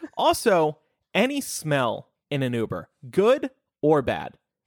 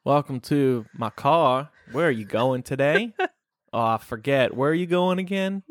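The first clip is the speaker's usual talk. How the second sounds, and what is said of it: Jeff Sessions impression. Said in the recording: “put on a fake accent ... I would just do my Jeff Sessions”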